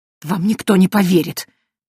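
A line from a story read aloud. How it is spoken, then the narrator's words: Defeated priest hissing. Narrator (Russian): прошипел священник, но он уже понимал, что битва проиграна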